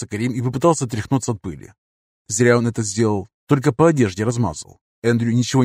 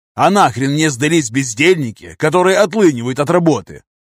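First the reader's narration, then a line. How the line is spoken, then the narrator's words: Almost growling. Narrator (Russian): еще немного, и Чамберс начнет рычать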